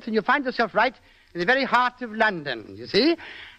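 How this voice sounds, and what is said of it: English accent with a lilt. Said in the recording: “you simply put in a bit of an accent like this and add a little bit of a lilt”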